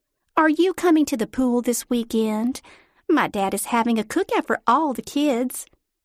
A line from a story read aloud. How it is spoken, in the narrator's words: said sweetly